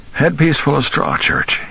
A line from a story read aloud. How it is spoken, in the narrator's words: said in his croaking voice